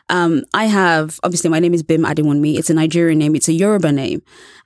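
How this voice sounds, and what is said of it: British accent. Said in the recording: “I have a British accent, which is pleasing to many American ears ... a charming British accent”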